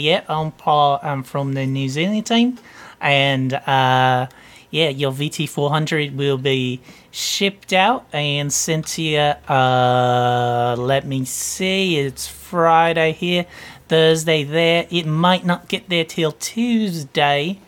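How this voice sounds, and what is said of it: Put-on New Zealand accent. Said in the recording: “sometimes I'll pick up a New Zealand accent and see if I can make that run the whole”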